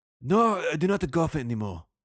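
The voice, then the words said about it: Put-on Japanese-sounding Asian accent. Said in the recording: “I know all my Asians sound like Japanese ... I'm going to do my one Asian accent, and it's going to sound Japanese”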